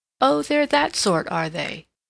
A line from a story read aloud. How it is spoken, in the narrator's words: said Miss Markham, with a little laugh